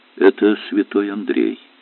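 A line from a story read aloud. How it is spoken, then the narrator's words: Calm. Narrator (Russian): спокойно сказал Олег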